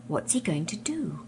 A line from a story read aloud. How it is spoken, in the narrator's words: whispered Eustace to Edmund